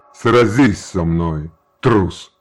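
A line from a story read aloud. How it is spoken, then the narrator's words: Growling challenge. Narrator (Russian): прорычал Желиман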